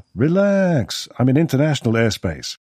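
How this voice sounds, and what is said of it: Relaxed drawling American voice. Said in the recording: “drawl”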